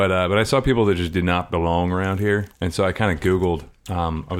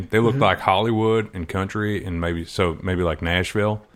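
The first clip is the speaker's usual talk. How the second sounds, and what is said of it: Put-on Southern American accent. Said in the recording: “There's my accent for the day, by the way. That's actually probably the best accent that I can do is like Southern.”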